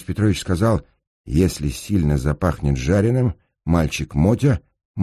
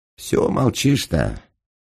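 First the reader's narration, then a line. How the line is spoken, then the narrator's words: Muffled distant voice. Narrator (Russian): Глухо донеслось из узкого прохода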